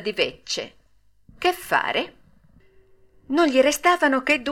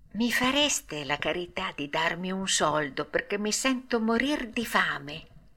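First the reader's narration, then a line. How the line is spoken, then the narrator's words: Ashamed, quiet voice. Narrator (Italian): Pinocchio, abbassando gli occhi dalla vergogna, gli disse sottovoce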